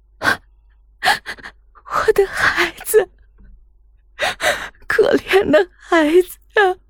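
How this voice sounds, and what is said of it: Quiet, tearful crying voice. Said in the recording (Chinese): “小声的哭了起来”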